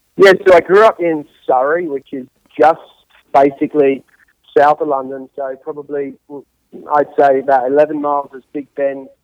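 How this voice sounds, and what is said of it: English accent. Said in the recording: “grew up in England ... you don't have a Alabama accent”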